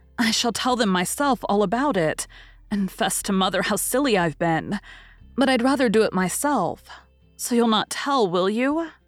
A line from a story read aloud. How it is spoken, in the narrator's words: Meg hastily added